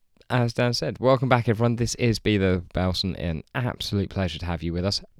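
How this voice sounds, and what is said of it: Croaky, hoarse voice. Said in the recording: “I wasn't feeling the best ... my voice might sound a little bit funny this week ... A little bit croaky ... It might disappear at points”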